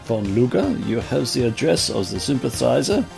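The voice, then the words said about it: Put-on foreign accent. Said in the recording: “This accent is not helping me.”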